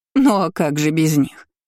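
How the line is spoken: Court lady laughing. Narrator (Russian): Рассмеялась придворная дама

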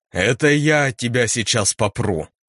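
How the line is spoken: Growl. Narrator (Russian): зарычал я

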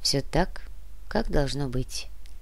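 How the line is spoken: Quiet. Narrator (Russian): тихо произнес митрополит

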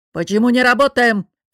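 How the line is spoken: Barked. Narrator (Russian): рявкнул босс

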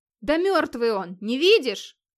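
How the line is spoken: Frowning shout. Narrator (Russian): хмурясь крикнул Гейр

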